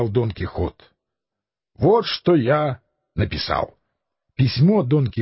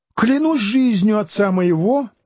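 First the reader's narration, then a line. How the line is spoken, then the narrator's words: Exclamation. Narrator (Russian): воскликнул Санчо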